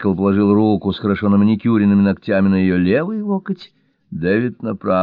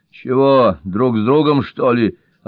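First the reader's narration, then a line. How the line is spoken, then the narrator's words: Snapping aloud. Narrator (Russian): огрызнулась ангел вслух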